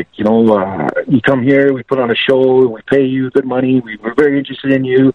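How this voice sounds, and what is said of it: French-Canadian accent, mafia-style voice. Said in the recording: “it's that French-Canadian accent, Italian mafia style ... just like something you never heard before in your life”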